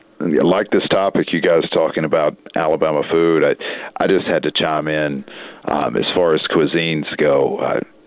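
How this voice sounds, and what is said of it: Alabama Southern US accent. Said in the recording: “as you'll be able to tell by my accent, Birmingham, Alabama, for certain”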